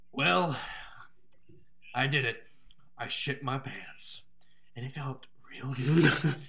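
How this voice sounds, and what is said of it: Breathy imitation of a famous actor. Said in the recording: “you can do an impression of him ... he has a very weird, like, breathy way of speaking”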